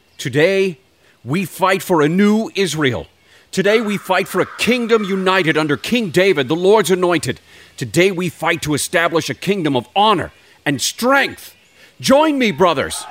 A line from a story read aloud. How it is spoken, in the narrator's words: He shouted